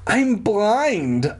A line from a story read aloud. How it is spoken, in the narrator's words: I cried